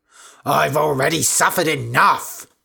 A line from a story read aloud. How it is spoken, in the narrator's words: shouted Candida